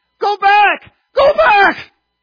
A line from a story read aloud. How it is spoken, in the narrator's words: he screamed